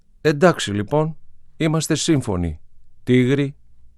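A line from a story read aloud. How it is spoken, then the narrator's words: Smiling naughty child. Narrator (Greek): είπε το παλιόπαιδο και χαμογέλασε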